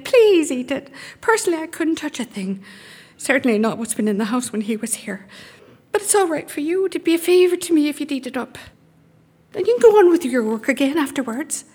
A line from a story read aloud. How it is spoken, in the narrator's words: she begged